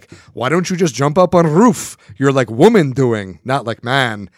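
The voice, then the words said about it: Very thick Russian accent. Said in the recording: “within his very thick Russian accent”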